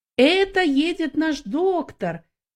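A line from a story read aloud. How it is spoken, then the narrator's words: Shouting. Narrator (Russian): некоторые из них кричали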